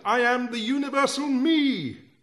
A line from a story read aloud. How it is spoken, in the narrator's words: One shouted